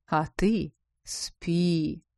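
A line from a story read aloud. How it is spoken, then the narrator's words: Drawling. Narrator (Russian): протянула обладательница особого дара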